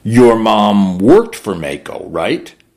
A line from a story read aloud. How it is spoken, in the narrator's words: He grunted